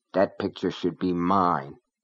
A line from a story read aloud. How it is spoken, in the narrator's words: she muttered